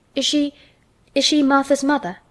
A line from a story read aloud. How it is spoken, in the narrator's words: she stammered